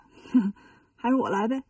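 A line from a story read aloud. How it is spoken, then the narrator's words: Amused snort. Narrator (Chinese): 孙悟空笑了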